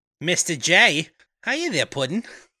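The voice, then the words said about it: Long Island accented character voice. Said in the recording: “Is this a Long Island accent or a Valley Girl type accent? ... I would say Long Island.”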